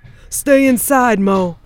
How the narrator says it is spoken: he shouted

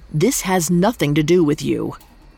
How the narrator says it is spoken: He snapped at the girls, saying

